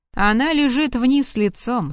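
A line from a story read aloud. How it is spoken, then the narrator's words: Plain. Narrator (Russian): сказала Кристин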